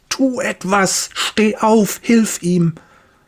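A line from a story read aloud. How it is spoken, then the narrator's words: Inner scream. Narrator (German): etwas in seinem Inneren schreit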